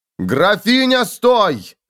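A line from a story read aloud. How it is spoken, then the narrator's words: Barked. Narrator (Russian): рявкнул фон Вольген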